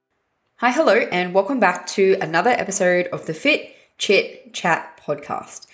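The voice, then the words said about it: Raspy, husky sick voice. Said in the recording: “I've just been very unwell this week. I actually end up having bronchitis ... my voice is a bit raspy, a bit husky ... because of my vocal cords”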